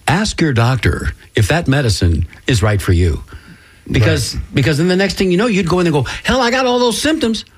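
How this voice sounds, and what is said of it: Exaggerated announcer-style radio voice. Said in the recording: “I'm going to do it in my best radio voice”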